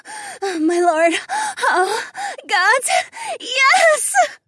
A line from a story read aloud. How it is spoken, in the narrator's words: Polina shrieked